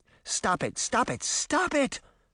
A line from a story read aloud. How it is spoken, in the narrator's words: Sabrina cried